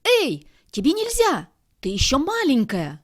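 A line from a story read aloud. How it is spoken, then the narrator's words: Shouting after little sister. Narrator (Russian): крикнул Шмяк вслед сестренке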